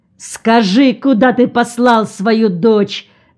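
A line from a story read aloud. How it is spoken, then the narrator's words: Shouted. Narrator (Russian): закричал Ильмач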